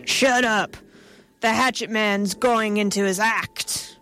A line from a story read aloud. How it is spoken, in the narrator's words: Boss Wallister moaned